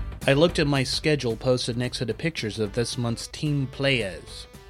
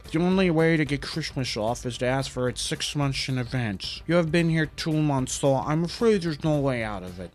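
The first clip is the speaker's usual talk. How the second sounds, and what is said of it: Brando Godfather impression. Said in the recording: “bad impression ... he impersonated Brando in The Godfather”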